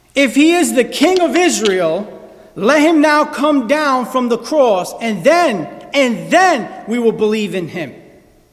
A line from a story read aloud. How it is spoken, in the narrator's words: the Jewish people shouted at him